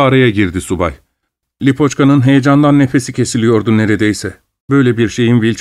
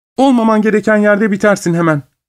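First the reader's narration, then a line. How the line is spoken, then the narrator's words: Shouted. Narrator (Turkish): diye bağırdı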